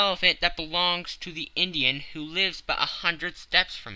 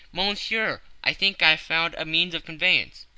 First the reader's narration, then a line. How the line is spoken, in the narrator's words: hastened, said